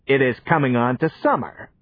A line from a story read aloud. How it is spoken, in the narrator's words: said the tailor